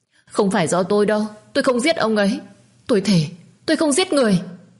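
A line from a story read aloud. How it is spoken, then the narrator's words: Trembling, screaming sobs. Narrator (Vietnamese): Con Hường run bần bật, nó cứ ôm đầu và khóc thét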